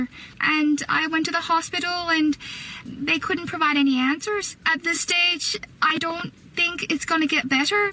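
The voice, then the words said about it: Irish accent. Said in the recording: “And she wakes up, Irish accent... So she had the normal Australian accent... But she sounds cute.”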